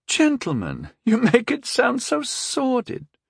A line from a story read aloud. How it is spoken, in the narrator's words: Lady Estrid chuckled